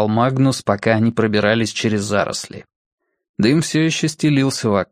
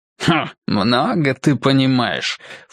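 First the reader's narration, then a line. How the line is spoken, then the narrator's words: Scornful snort. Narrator (Russian): фыркнул тот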